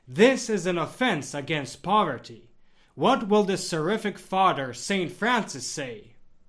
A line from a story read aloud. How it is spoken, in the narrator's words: he exclaimed